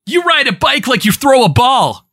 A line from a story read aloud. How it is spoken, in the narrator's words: shouted Jason